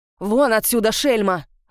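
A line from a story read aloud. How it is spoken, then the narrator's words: Barking. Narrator (Russian): Рявкнула на служанку мадам Рошаль и отчего-то осеклась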